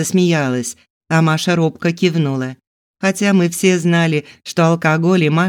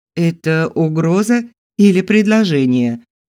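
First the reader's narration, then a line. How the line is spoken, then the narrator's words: Plain. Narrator (Russian): спросила я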